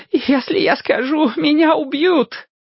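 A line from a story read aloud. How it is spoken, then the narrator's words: Pleading. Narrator (Russian): взмолился он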